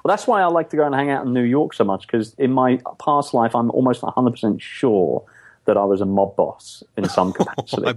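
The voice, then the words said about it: English accent. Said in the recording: “I'm thinking of the whole English thing. ... my accent”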